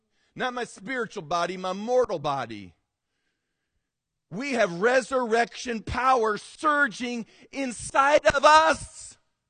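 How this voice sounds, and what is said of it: Yelling, loud emphatic preaching. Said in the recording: “Why are you yelling? Because I'm hoping yelling will blast that out of you and me.”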